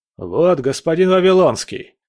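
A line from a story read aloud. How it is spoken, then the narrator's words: Shouted. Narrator (Russian): крикнул он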